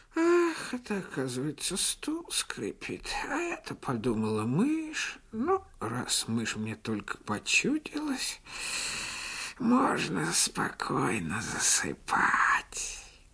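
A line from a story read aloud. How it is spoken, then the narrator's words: Cat muttering. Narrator (Russian): Кошка … пробормотав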